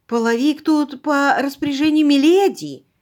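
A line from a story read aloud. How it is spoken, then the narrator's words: Timid. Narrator (Russian): робко сказала миссис Уилсон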